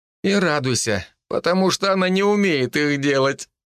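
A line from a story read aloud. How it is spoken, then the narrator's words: Laughing. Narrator (Russian): я засмеялся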